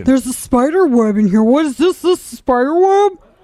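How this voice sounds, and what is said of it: Mocking impression of a co-host's strained voice. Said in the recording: “Why do I have to sound like I have an embolism or something? ... It's difficult to do your voice.”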